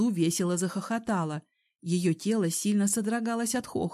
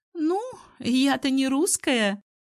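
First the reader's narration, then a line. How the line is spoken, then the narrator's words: Giggling. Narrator (Russian): хихикнула Алсу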